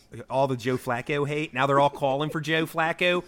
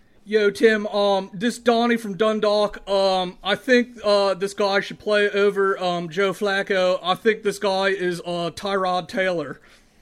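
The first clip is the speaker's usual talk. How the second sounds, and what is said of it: Put-on Baltimore accent. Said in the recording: “I had to say Flacco to get into the Ballmer accent a little bit.”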